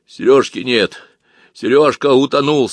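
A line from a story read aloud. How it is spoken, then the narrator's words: Hoarse. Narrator (Russian): сказал он хрипло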